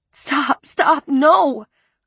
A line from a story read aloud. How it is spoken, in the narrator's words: I cried